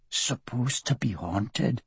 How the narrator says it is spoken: Wallace whispered

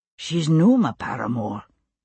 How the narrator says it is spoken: Ian murmured into her hair

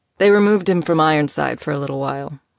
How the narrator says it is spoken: Nico answered, his tone casual

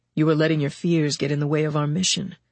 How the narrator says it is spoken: Jake said gently

